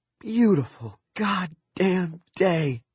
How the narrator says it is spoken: Claudie exclaimed

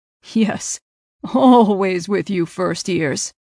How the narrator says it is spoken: the man laughed

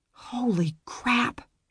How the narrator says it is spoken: whispered

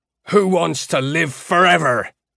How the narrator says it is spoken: Iota roared, and a flat echo came back from the tiles

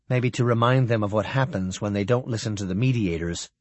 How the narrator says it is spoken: Sally said quietly

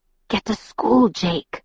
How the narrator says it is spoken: whispered, anxious

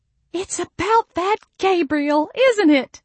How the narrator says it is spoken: Mama squealed

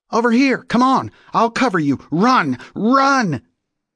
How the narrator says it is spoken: the shooter yell out

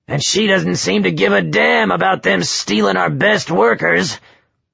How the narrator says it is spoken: grumbled, then added, fuming

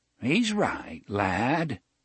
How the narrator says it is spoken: Jonas said in his reedy, quavering voice

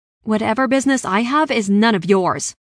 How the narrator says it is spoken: snapped

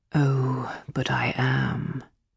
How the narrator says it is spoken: he said softly

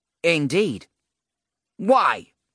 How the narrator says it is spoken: Agela snapped

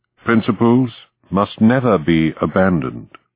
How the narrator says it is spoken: Spruce said evenly

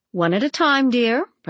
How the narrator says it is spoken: said

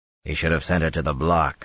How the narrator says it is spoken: Dobrain muttered

